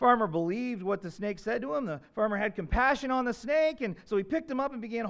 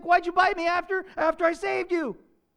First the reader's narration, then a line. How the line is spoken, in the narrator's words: cried the farmer